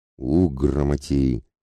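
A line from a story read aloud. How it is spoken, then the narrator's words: Hissing. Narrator (Russian): прошипел на всех Демка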